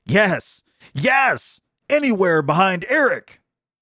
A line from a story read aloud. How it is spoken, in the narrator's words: His men pounded on the tables and shouted